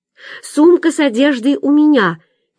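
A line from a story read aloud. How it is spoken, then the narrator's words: Shouting. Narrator (Russian): крикнула Маня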